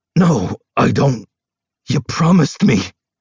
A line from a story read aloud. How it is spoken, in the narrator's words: I snarl